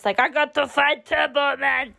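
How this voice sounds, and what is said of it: Arnie impression accent. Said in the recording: “I can't say a line without doing his accent.”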